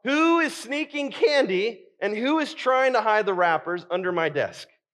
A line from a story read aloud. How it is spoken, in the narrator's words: I called out